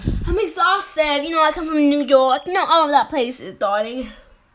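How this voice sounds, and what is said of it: Fake British accent. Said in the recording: “Why do you have a British accent then? ... So why do you fake this British accent?”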